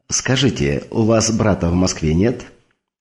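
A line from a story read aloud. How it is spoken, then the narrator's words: Plain. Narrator (Russian): спросила Барбара возницу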